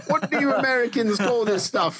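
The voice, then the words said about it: Put-on Australian accent. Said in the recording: “I'm doing like an Australian accent.”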